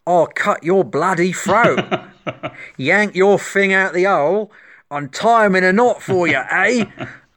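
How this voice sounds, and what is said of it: Put-on Cockney accent. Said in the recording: “that was a better Cockney accent than he did, because I'm British”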